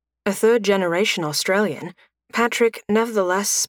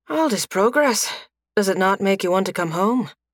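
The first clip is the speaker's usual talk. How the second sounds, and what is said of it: Soft Irish accent. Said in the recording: “spoke with the soft Irish accent of his father and grandfather”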